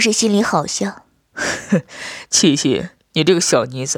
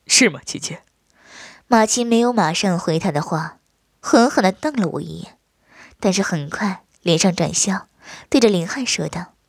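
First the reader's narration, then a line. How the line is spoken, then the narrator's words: Happy, laughing. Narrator (Chinese): 很是高兴，对着马奇笑道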